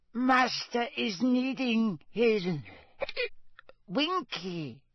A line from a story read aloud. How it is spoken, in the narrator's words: whimpered the elf